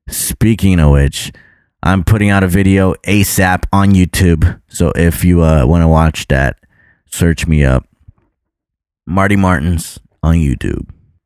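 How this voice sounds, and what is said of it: Tired, worn-out voice. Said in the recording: “My voice is tired from talking today.”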